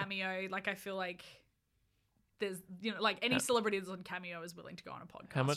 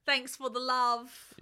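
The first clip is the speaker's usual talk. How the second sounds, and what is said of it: Convincing imitation of another person's accent. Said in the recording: “That was my Tom Felton accent... I actually thought that was Tom Felton... You are very good at accents.”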